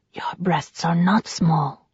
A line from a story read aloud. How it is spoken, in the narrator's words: whispered